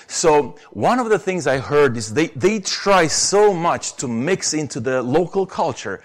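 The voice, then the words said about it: Romanian accent in English. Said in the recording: “you never would doubt that I'm a Romanian, right? By my accent”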